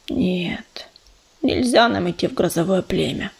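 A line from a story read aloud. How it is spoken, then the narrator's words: Mutter. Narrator (Russian): пробормотал он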